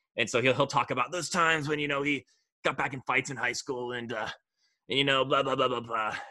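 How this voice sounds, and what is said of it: Poor Sean McVay impression. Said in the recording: “my terrible Sean McVay impression”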